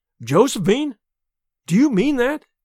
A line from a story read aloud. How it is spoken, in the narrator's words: he exclaimed